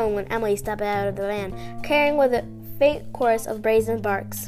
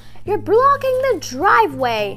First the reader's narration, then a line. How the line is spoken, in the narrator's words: the woman shouted